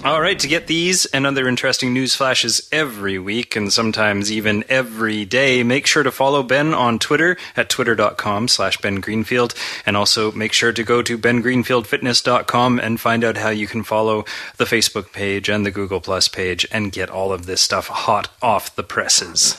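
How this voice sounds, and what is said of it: FM radio announcer voice. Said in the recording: “I'm working on my FM radio voice, too.”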